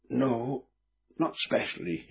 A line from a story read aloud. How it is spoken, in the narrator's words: replied faintly